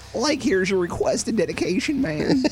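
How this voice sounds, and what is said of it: Shaggy cartoon voice impression. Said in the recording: “That might be the best impression I've heard you do ... I can do a good Shaggy”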